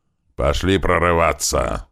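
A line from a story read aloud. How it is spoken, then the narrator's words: Growling. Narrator (Russian): зарычал Большой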